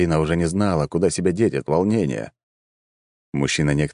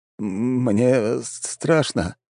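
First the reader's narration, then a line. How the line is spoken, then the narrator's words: Man's fearful mumble. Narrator (Russian): промямлил мужчина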